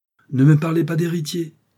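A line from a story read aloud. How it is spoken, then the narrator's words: Exclaimed. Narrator (French): s'écria Charles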